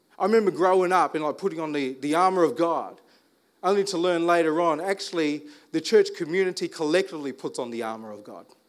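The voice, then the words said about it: Speaks with an American-sounding accent. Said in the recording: “I sound American, right? ... speaking like an American.”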